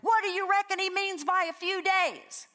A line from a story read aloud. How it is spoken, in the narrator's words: Someone yells from the back of the room